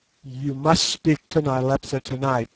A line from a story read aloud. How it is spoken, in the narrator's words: I said